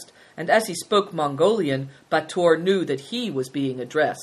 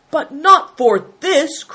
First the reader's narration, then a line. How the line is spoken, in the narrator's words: cried the lama, indignantly